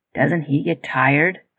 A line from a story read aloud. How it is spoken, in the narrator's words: Tyler mumbled